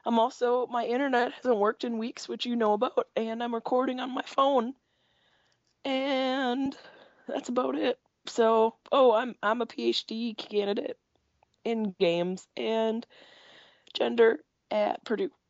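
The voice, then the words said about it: Sick voice fading in and out. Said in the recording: “I'm sick. I got a pneumonia lung, and my voice is going to be going in and out.”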